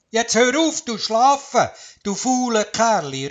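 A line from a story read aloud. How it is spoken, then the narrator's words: Calling out. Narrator (German): rief der Wurzel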